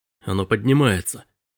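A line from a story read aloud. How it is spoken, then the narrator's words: Breathless exhale. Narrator (Russian): выдохнул Робби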